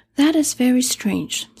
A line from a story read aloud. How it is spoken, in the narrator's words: said Dorothy,